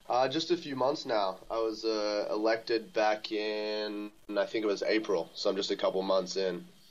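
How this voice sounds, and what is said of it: American accent. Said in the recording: “listening to my accent, you would think I'm an American... the accent's faded over time”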